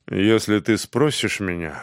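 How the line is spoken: Calm. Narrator (Russian): спокойно сказал он сержанту

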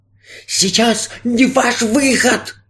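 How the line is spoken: Hissing magician. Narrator (Russian): зашипел на него фокусник

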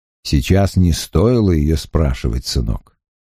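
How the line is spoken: Quiet and sad. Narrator (Russian): сказал волшебник тихо и печально

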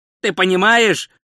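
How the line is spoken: Shout. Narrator (Russian): крикнул Ринсвинд

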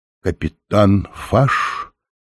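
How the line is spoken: Uncertain question. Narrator (Russian): неуверенно спросил Оренгороса

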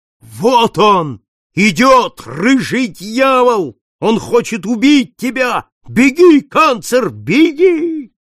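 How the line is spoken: Old man's hoarse frightened shout. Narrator (Russian): Старик хрипло простонал, отшатнулся и, в свою очередь, закричал

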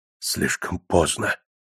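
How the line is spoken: Muttered. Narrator (Russian): пробормотал Боманс

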